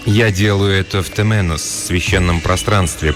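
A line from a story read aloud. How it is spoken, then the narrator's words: Mumbling. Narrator (Russian): промямлил я, словно это все объясняло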